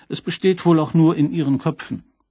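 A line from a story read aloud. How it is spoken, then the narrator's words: Plain. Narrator (German): sagte K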